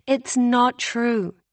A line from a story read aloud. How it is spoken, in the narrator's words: April said lazily